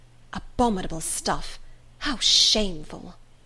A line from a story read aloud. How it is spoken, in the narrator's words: the stout one, whispered